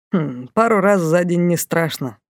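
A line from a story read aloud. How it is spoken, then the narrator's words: Snort, young man. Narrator (Russian): хмыкнул парень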